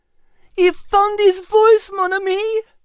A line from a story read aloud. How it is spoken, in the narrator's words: Liz exclaimed with tears rolling down her cheeks